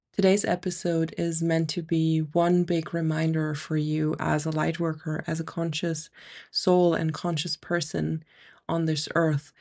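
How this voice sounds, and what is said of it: Slightly nasal, congested voice. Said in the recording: “I'm battling a really annoying ear infection, so I might sound a little bit nasal today ... excuse the nasal voice if that's the case”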